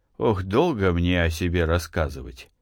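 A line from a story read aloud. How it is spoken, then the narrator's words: Sighing. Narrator (Russian): сказал он и вздохнул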